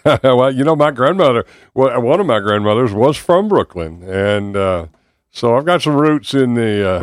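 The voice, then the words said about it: Southern American accent. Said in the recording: “We hear that southern accent, but you've been here 35 years.”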